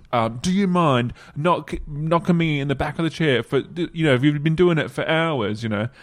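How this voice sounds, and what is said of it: Half-committed upper-class British accent. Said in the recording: “How come you didn't commit to that accent? ... I'm waiting for it to like really like kick into that accent, and then it like went reverse. ... I wanted him to sound a bit more upper class than like Cockney”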